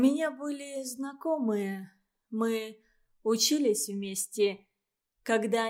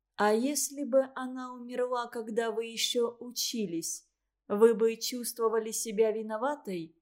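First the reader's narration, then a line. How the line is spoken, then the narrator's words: Quiet question. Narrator (Russian): тихо спросила Валентина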